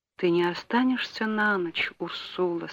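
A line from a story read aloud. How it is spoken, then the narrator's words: Barely audible question. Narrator (Russian): спросил он еле слышно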